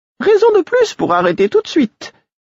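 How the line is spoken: Acerbic tone. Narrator (French): fit-elle d'un ton acerbe

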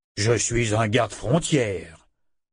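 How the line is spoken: Giant's offended grumble. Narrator (French): grogna le colosse, vexé

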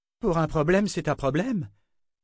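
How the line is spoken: Exclaiming. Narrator (French): s'écria Nietzsche

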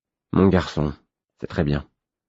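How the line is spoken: Muttered. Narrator (French): marmonnai-je

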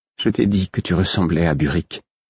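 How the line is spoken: Cautious tone. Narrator (French): fit-elle d'un ton circonspect

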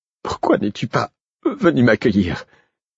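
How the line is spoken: Breathless question. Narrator (French): demanda Molly, haletante

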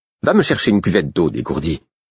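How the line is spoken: Curt snapping. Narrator (French): jeta-t-elle sèchement

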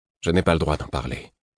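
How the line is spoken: Obstinate repetition. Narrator (French): répétai-je d'un ton obstiné

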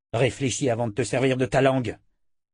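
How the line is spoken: Growling. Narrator (French): grogna Richard

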